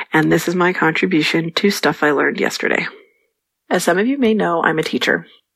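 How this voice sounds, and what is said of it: Congested voice from a cold. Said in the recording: “I have a little bit of a cold,”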